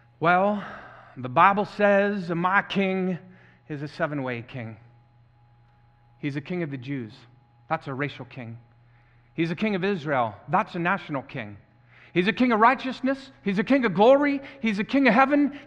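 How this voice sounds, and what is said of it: Imitated deep Southern American accent. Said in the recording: “I learned this using a deep southern accent. So if that accent comes out of me today ... I am imitating an accent.”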